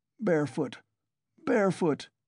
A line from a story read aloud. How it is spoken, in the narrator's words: he muttered